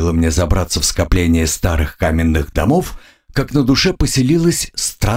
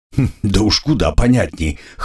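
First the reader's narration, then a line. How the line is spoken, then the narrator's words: Snort. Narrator (Russian): хмыкнул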